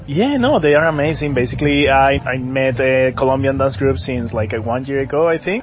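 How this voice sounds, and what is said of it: English with a Colombian accent. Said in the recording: “you've got a bit of an accent there ... I'm from Colombia. I'm from Bogota, Colombia.”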